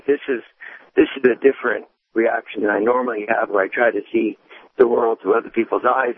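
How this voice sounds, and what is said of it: Hoarse voice. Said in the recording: “hear from my tone, though, I'm a little bit hoarse.”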